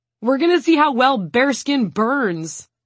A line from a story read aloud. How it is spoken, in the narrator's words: one of the guys from the team is too excited to stop himself, so he shouts